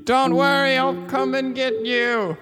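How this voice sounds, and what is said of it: Yelling. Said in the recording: “He's yelling into an owl hole in a tree.”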